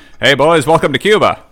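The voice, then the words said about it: English with a very broad accent. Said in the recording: “It's English with a very broad accent.”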